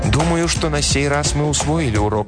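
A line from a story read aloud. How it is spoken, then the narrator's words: Plain. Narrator (Russian): ответил Дэн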